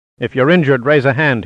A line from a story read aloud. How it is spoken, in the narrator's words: called out